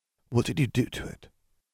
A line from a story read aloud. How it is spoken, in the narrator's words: Katie whispered